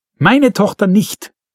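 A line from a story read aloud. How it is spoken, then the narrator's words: Woman screaming. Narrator (German): schrie die Frau Baumgartner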